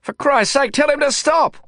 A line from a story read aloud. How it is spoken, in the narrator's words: I shouted